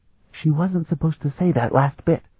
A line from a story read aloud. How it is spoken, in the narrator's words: Danae whispered in Sparhawk's ear